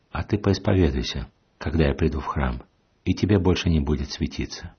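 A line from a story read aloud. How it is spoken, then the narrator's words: Calm advice. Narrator (Russian): он спокойно ей посоветовал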